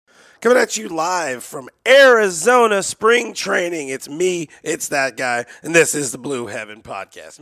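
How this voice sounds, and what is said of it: Hoarse, damaged voice. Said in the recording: “My voice is still tore up. It's slightly on the mend... my throat is toe up... someone killed your voice”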